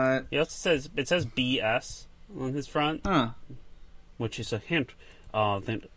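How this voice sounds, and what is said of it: Usual voice. Nothing is said of it.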